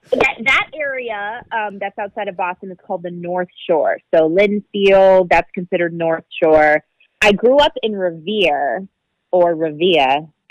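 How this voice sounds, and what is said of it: Slight Boston accent. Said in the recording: “I don't really have a Boston accent ... As soon as you said that, I was like, oh, my God, I can hear it now.”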